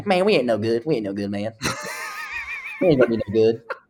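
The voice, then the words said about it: Imitates another person's voice. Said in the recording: “this is my Casey Dunn impression.”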